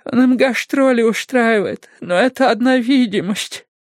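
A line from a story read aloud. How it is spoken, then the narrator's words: Sobbing. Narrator (Russian): она зарыдала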